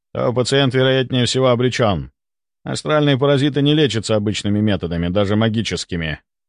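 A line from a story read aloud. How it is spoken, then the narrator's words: Grim. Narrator (Russian): мрачно произнес Стрельцов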